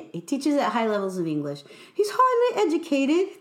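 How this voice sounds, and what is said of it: Bad put-on British accent. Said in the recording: “That's my bad British accent”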